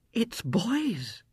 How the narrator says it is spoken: said in a breathless whisper

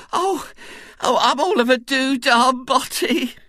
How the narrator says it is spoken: she moaned

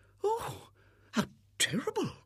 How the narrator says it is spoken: murmured the visitor

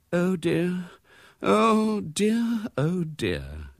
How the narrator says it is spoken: groaned Mrs

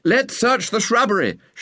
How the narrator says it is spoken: shouted a voice

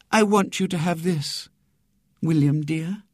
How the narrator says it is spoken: said sweetly

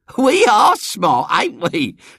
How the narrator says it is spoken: said Eglantine with a high-pitched laugh

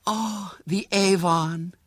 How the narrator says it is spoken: she said, with an ecstatic sigh

